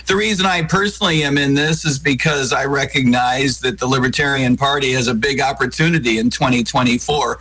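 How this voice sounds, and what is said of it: Hoarse, worn-out voice. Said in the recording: “you can probably tell I've been losing my voice over the past couple of days”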